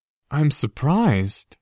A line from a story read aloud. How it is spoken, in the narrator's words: Harry said, amazed that his voice was almost steady